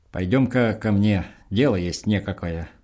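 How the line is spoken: Stern, with grunting. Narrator (Russian): Вологонов покрякивая строго сказал

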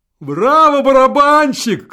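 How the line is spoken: Shouting from the gallery. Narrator (Russian): крикнули из райка

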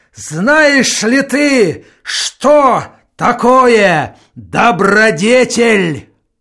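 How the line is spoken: Barking at full power. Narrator (Russian): во всю мощь гаркнул

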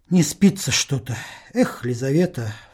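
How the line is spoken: Sighing. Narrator (Russian): вздохнул он

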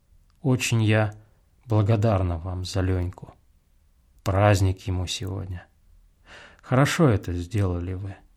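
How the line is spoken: Gentle, affectionate. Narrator (Russian): продолжала ласково

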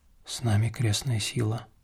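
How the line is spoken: Whisper. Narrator (Russian): шепнул Илья

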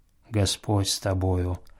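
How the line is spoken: Low voice. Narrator (Russian): промолвил Филофей Степенный вполголоса

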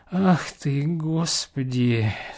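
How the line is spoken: Moaned. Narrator (Russian): стонал Осип

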